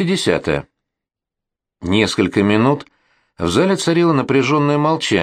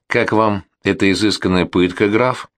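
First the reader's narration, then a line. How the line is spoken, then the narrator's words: Calm cheerful question. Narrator (Russian): Спокойно, жизнерадостно поинтересовалась графиня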